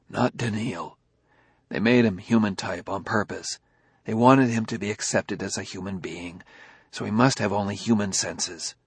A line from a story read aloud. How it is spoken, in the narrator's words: He whispered